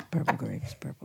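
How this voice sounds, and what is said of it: Quiet, low librarian-style voice. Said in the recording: “I can do it in a low voice.”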